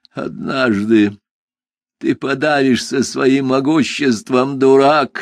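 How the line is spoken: Hateful hoarse rasp. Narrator (Russian): с ненавистью прохрипел он

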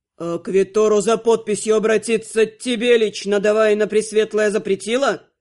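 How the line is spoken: Growl. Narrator (Russian): Прорычал Анхайлик

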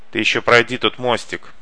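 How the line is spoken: Snorting. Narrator (Russian): хмыкнул Сафик

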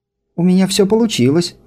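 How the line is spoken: Exclamation. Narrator (Russian): воскликнула Ларк

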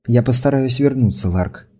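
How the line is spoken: Whispered. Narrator (Russian): прошептала

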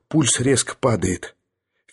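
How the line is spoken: Slightly hoarse. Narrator (Russian): барменталь хрипловато сказал

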